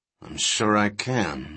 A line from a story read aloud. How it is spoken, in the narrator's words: Levine muttered